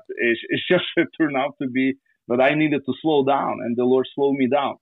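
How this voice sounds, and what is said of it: Slavic accent in English. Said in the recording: “Slavic guy with their accent. Yes, I have an accent because I speak in other languages.”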